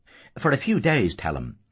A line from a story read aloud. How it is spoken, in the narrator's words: Father Cowley said anxiously